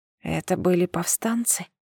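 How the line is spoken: Barely audible whisper. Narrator (Russian): Я шептала, еле двигая губами, и с трудом слышала собственный голос

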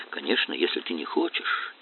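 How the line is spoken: Quiet. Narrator (Russian): тихо сказала она

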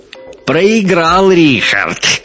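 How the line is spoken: Shout. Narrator (Russian): крикнул коренастый крепыш с красным лицом

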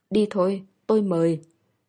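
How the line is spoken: Hoarse voice. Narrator (Vietnamese): khàn khàn nói

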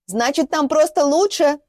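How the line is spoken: Yelling. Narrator (Russian): заорала Маша

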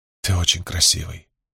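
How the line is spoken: Mumbling. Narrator (Russian): пробормотала Хлорис

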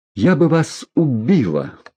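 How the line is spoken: Moaned. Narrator (Russian): простонала она

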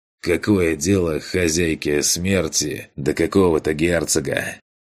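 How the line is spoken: Weary question. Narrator (Russian): Устало поинтересовался Эдгар

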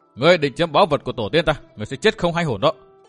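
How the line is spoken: Menacing growled question. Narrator (Vietnamese): Ngân Nhi gằn giọng hỏi

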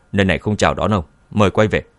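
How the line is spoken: Cold. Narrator (Vietnamese): vội bước lên, lạnh lùng

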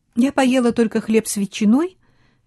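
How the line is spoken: Cheerful. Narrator (Russian): весело сказала она

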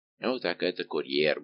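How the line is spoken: Mumbled while drinking. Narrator (Russian): буркнул, не прекращая возлияний, Безмо

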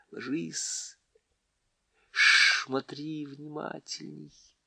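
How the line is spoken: Whisper, as quiet as possible. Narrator (Russian): прошептала так тихо, как могла, прямо Тириану в ухо

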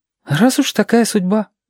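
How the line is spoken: Sighing. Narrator (Russian): вздохнул

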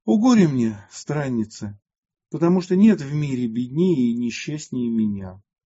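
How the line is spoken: Heavy sigh, tearful. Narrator (Russian): Тяжко вздохнув, Матфидия прослезилась и сказала

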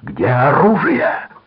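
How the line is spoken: Roared. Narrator (Russian): проревел он

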